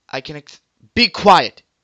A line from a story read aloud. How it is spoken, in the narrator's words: he shouted